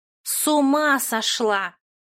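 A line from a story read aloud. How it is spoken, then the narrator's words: Hissing. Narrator (Russian): зашипела Моти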